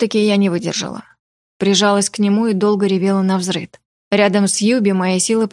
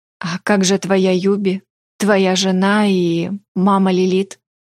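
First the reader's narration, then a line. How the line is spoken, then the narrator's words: Plain. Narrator (Russian): спросила я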